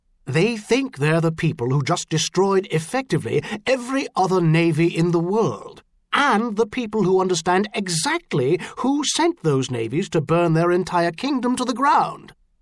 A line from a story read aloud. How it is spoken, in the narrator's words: Vicar Robert Ducairne said harshly